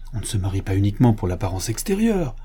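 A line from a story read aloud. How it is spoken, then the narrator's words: Piqued tone. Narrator (French): fit Madame de la Rouvray d'un ton piqué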